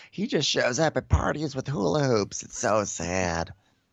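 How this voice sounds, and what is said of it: Impression of Carol. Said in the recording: “My Carol is not as good as yours. I don't know what happened to my Carol impersonation.”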